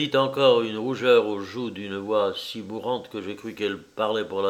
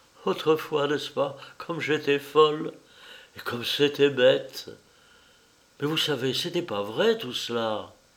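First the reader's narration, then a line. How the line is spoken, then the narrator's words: Sad. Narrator (French): Et elle ajouta tristement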